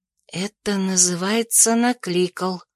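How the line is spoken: Breathed into ear. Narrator (Russian): выдохнула я Нейлзу в ухо

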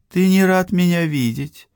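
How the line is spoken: Sad question. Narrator (Russian): грустно спросила Акеми

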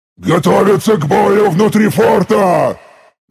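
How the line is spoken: Roared. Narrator (Russian): Взревел я

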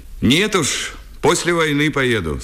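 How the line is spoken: Plain. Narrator (Russian): сказал Лубенцов

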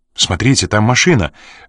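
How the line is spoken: Sudden exclamation. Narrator (Russian): внезапно воскликнула Энн

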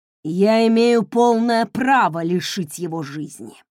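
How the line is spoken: Growled. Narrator (Russian): прорычал он

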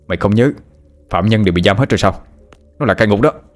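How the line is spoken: Shouting. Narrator (Vietnamese): hét lên

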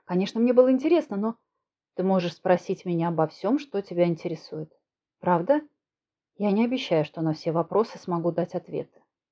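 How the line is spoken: Calm. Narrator (Russian): спокойно продолжил Саша

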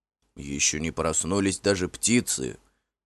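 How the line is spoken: Grumbling. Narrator (Russian): проворчал он

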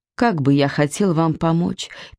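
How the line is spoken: Sad sigh. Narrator (Russian): печально выдохнул Иннокентий

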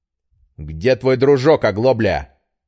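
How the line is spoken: Angry forced words. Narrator (Russian): зло выдавил Петр

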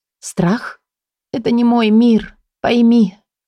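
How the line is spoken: Weary. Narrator (Russian): устало проговорила я

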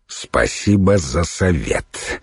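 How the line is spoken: Grumbling. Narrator (Russian): проворчал Святослав

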